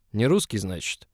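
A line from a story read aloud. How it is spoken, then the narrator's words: Snort. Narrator (Russian): хмыкнул он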